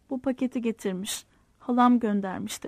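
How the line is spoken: Plain. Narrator (Turkish): dedi

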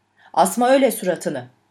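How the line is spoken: Slow, firm voice. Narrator (Turkish): Yavaş ama kararlı bir sesle

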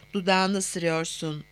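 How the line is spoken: Breathed mysteriously. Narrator (Turkish): diye soludu gizemli bir sesle

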